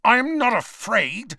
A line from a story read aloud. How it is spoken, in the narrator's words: snarled Malfoy